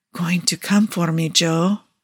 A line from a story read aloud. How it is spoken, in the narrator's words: he murmured into Joe's mouth